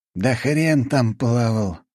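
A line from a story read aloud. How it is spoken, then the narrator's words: Sigh. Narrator (Russian): вздохнул Фирсов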